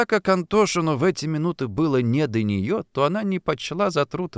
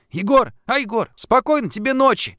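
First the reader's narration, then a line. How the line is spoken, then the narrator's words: Shout from behind curtain. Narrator (Russian): крикнула Шурка из-за полога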